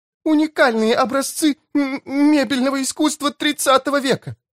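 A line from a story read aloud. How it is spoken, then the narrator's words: Wailing, then sobbing. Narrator (Russian): возопила мисс Плим и разрыдалась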